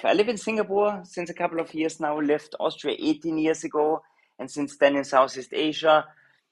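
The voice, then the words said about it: Austrian German accent in English. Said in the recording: “I'm Austrian originally. I think my accent is giving it away a little bit, the Arnold Schwarzer accent that I couldn't get rid of all my life.”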